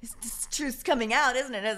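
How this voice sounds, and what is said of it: Snide mocking voice of social-media commenters. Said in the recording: “your impression. That was pretty spot on of everybody that does that.”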